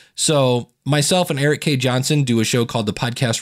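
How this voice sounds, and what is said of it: Usual voice. Nothing is said of it.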